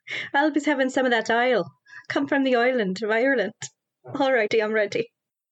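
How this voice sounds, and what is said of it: Put-on Irish accent. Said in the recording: “Irish accent. And Irish accent. ... I have an Irish accent.”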